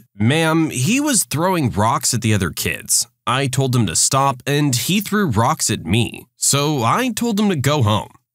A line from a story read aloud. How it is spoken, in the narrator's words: I calmly responded